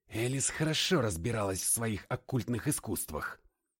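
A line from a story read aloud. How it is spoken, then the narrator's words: Muttering. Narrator (Russian): пробормотал я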